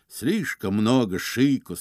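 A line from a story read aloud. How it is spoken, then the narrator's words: Plain. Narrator (Russian): сказал он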